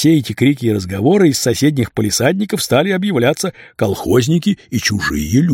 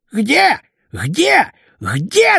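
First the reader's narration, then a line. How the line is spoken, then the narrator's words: Flustered defensive protest. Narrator (Russian): отбивался Хрипун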